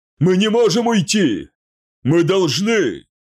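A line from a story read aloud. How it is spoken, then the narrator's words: Shout. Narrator (Russian): крикнул Хатхор Маат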